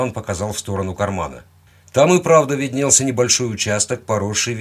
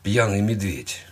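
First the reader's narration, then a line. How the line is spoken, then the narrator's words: Gruff mutter. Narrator (Russian): буркнул я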